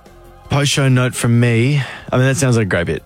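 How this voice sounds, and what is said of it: Sarcastic tone. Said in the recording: “that was sarcastic”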